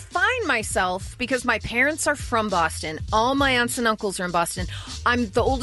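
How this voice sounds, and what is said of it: Usual voice. Nothing is said of it.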